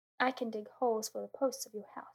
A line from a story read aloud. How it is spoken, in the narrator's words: said the rabbit